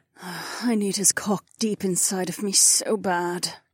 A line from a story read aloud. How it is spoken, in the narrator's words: Kat moaned softly